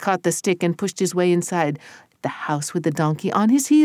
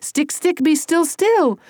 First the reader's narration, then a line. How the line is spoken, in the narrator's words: Tony yelled